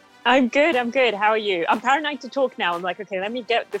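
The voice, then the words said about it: Strong non-American accent. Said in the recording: “just wait until you hear this fucking accent, because you're gonna die ... to most of my listeners' ears that are American, it's going to be very impressive”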